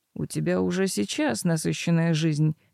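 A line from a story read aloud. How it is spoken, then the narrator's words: Gentle reminder. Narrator (Russian): мягко напомнил жених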